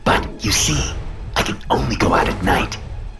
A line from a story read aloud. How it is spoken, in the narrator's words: the beast said, his voice sharp